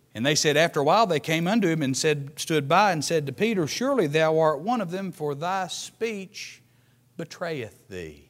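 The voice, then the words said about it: Southern US accent, Tennessee/Kentucky. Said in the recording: “it's mighty easy to tell that I'm from either northern Tennessee or southern Kentucky”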